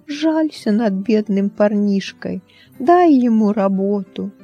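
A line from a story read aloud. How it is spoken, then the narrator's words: Boy speaking. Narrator (Russian): один мальчишка произнес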